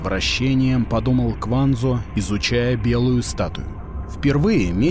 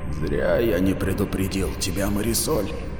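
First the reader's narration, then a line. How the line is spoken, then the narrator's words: Mutter. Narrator (Russian): пробормотал Нараен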